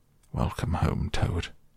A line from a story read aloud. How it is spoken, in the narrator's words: He came solemnly up to Toad, and said